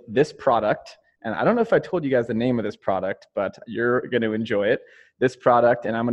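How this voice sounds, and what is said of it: Usual voice. Nothing is said of it.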